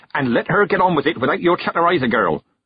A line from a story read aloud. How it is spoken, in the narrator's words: the witch snapped